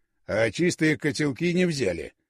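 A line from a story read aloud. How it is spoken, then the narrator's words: Snort to no one. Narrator (Russian): хмыкнул Горюнов, никому конкретно не обращаясь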